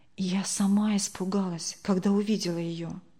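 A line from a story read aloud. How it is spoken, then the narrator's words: Whisper. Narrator (Russian): прошептала Тамара Сергеевна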